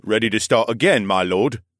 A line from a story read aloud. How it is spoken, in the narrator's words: Askara chuckled